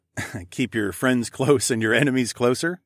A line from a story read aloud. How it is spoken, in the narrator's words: I chuckled